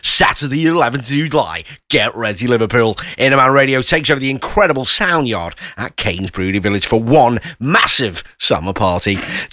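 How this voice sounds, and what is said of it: Cheesy radio DJ voice. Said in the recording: “going to do my DJ voice ... How do you like my voice? ... It's a bit cringe ... it's very cringe”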